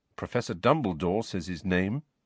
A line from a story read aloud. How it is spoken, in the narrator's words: said Harry quietly